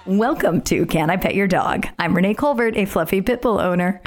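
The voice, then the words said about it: Squeaky, strained voice. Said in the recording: “I got a little bit of a squeaky voice ... I think a big bit of a squeaky voice ... losing your voice from screaming”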